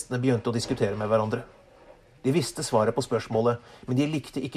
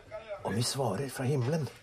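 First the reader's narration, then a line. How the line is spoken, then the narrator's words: Muttered to each other. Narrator (Norwegian): mumlet prestene til hverandre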